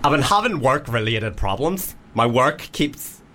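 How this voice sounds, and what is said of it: Put-on Northern Irish accent. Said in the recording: “Any accent particular ... Well, Northern Irish ... Right, Northern Irish. Northern Irish ... Straight Northern Irish, not gay”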